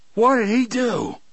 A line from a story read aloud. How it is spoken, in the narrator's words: Brutal shouted